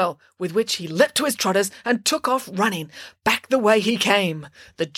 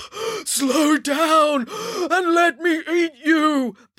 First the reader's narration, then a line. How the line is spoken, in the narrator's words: bellowed the giant